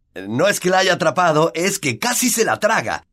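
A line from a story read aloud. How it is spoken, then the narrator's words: Prolonged shouting. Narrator (Spanish): todavía gritaba Flint 20 minutos más tarde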